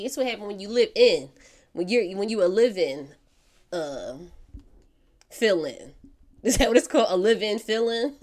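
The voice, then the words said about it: Congested, strained voice. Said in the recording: “Excuse my voice, guys. I'm fighting a sinus infection”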